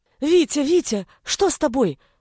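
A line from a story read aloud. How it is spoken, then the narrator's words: Frightened shout. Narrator (Russian): испуганно закричал Гришка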